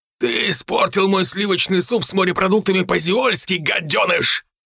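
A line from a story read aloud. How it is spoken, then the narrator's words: Barked in heavy bass. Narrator (Russian): рявкнул он тяжелым басом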